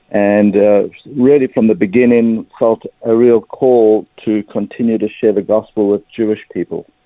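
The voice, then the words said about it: South African English accent. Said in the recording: “as you can probably pick up pretty quickly from my accent, I'm a South African Jewish person.”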